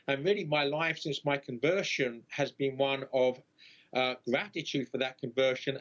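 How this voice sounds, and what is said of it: London accent softened by American influence. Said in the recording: “the accent you see is a London accent, somewhat mutilated by 20 years in the United States”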